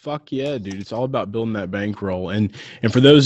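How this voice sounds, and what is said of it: Usual voice. Nothing is said of it.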